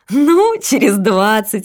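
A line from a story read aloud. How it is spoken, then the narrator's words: Laughing. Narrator (Russian): рассмеялась Катерина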